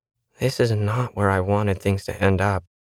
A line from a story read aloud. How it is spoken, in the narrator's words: muttered to no one